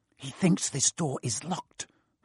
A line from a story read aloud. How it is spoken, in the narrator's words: Harry whispered